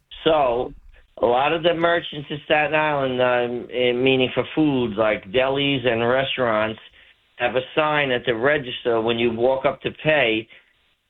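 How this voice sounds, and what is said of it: New York City accent. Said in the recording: “you could tell by my accent, I'm the guy from New York City.”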